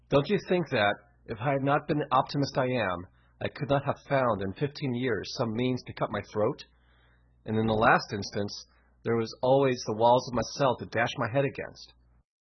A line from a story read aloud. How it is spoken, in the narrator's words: after a gasp or two, he added